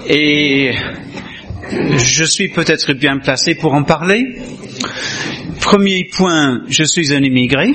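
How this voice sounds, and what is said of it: Foreign-accented French. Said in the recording (French): “J'ai un accent.”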